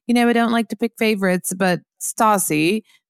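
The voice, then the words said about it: Imitated British accent. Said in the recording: “I tried to imitate a British accent”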